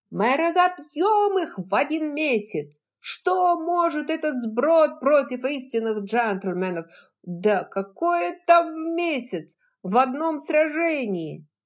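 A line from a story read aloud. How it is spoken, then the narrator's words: Repeated shout. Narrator (Russian): стюард Тарлтон, с горящим взором, выкрикнул который уже раз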